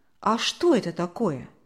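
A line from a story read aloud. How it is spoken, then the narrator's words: Plain. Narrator (Russian): спросила Мария Николаевна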